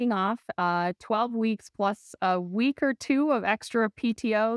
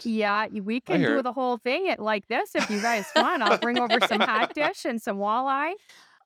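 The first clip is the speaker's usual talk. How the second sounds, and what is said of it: Exaggerated Minnesota accent. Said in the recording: “I don't hear the accent. ... I hear a little bit. ... There it is. ... I hear it.”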